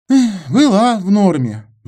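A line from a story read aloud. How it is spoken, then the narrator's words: Sigh. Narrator (Russian): вздохнул Антон Васильевич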